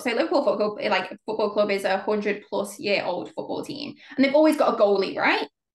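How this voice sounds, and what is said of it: Scouse (Liverpool) English accent. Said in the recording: “I'm from the UK, right? I've got a Scouse accent”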